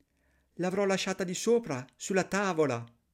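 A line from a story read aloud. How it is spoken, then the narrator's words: Stammering. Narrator (Italian): balbettò la poverina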